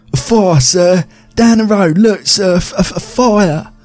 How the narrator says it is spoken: screamed out between breaths

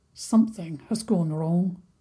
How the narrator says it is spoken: said in a low voice

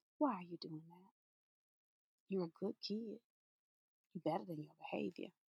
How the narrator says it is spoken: whisper

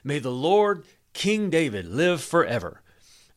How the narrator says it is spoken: Bathsheba exclaimed

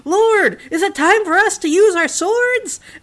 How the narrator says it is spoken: he shouted out

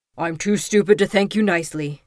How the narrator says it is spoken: Beast growled

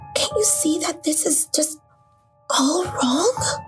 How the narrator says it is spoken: I hissed, trying to keep my voice low

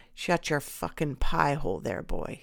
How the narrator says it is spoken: he snarled the words

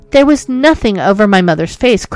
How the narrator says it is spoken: cried the lady at length

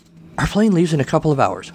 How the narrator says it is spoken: Lola said

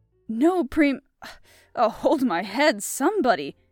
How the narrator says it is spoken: groaned Parker

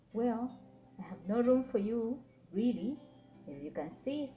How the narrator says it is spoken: said the Kamau

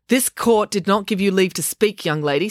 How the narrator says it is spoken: snapped the colonel

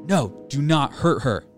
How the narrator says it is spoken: Sharon shouted

